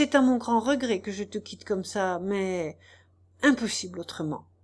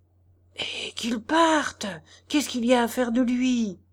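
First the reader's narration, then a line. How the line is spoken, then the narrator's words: Whispered in ear. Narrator (French): chuchota Tchitchikov à l'oreille de Nozdrev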